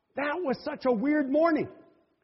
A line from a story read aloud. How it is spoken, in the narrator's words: he just blurted out